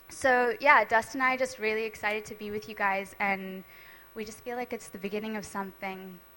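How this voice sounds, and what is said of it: American accent. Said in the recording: “I kind of have a Yankee accent”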